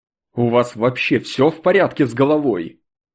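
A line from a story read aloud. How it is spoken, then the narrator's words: Angry retort. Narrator (Russian): Зло бросил я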